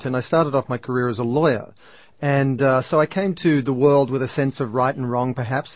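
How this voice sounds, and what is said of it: Australian accent. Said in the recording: “I'm Australian, as you can probably tell by the accent”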